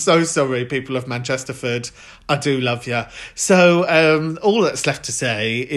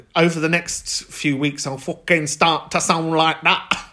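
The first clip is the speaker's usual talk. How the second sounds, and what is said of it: Bad put-on Mancunian accent. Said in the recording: “That's the worst Mancunian accent I've ever done.”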